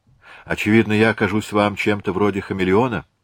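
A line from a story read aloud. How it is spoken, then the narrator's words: Sighing. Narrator (Russian): вздохнула она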